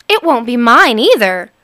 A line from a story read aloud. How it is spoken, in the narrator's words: cried Helga